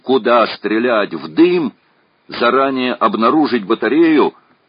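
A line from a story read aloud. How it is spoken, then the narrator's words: Shouted. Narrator (Russian): крикнул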